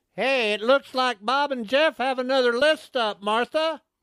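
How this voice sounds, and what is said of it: Impersonates a Chiefs fan. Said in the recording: “I'm impersonating a Chiefs fan here ... That was pretty bad.”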